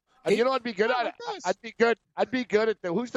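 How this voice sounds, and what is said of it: Usual voice. Nothing is said of it.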